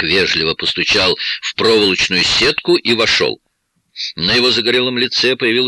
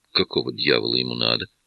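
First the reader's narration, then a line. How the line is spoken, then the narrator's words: Grumble. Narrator (Russian): проворчал я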